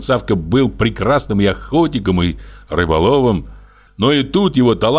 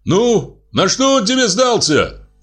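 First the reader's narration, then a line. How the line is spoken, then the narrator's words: Shouted after someone. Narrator (Russian): крикнул я ему вслед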